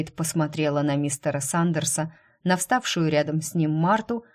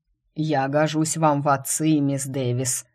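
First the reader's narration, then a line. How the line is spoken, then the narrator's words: Menacing remark. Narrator (Russian): грозно заметил главный лекарь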